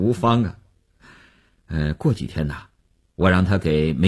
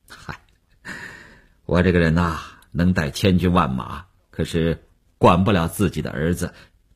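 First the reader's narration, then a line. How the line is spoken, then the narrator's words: Awkward self-mocking laugh. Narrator (Chinese): 吴长天也笑了笑，几分安慰，几分尴尬，自嘲地说道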